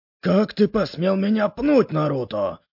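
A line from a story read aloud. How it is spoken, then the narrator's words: Angry bark. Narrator (Russian): рявкнул он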